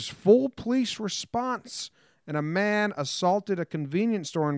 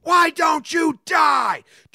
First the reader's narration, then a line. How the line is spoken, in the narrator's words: Australia man screaming at spider